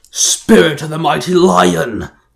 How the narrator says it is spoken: Jarrod roared

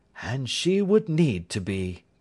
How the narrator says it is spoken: said Holmes gravely

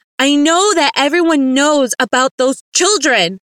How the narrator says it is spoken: I shouted

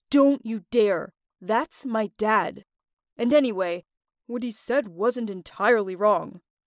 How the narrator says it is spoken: Mark interrupted me angrily, saying

